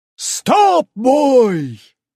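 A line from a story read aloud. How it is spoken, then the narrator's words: Yelling. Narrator (Russian): заорал Мёбиус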